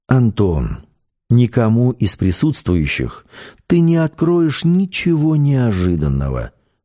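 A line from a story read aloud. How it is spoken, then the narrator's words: Calm. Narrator (Russian): спокойно сказал шеф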